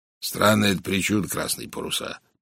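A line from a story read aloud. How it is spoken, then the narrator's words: Grumbling. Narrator (Russian): проворчал майор Барри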